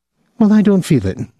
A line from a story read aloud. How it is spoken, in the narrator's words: Julie's voice quavered